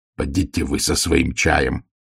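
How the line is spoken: Straining growl. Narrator (Russian): зарычал Ваймс, пытаясь подняться с земли

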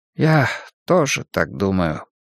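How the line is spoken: Sad. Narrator (Russian): печально кивнул Джан Бинь

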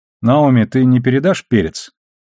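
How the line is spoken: Neutral businesslike request. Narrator (Russian): Самым нейтральным деловым тоном он попросил

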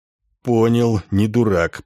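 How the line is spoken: Hoarse coachman. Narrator (Russian): прохрипел ямщик

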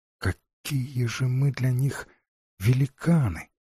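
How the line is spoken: Absent-minded whisper. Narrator (Russian): не впопад прошептала Джейн

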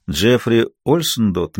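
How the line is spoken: Soft question. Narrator (Russian): мягко спросил Равна

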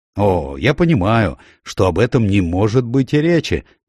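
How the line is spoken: Cheerful, brisk. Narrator (Russian): бодро произнес мистер Коуман

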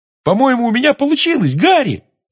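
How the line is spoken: Excited yell. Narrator (Russian): завопил Симус

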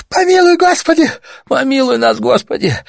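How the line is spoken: Moaning woman. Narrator (Russian): застонал еще другой, женщина

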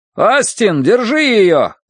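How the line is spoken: Distant shout. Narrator (Russian): крикнули ей вслед, но уже далеко за спиной

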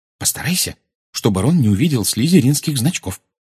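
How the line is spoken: Whisper. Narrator (Russian): шепнула она

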